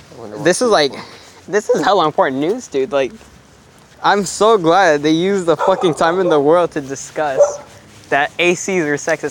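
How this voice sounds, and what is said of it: Congested voice from a cold. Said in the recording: “you can probably tell I have a cold right now”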